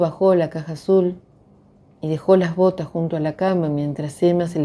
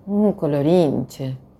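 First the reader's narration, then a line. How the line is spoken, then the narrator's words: Plain. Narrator (Spanish): dijo Emma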